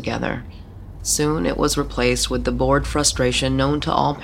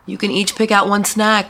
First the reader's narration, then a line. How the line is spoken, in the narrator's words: Sarah shouted